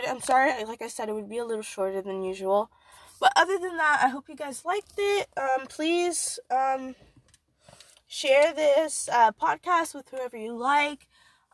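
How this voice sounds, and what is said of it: Weak, fading sick voice. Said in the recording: “My voice is literally disappearing. I'm so sick.”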